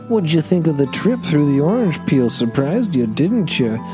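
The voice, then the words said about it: Weird character voice. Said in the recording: “in a weird voice”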